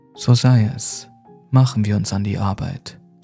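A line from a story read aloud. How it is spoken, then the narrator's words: Plain. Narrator (German): sagte Frombald schließlich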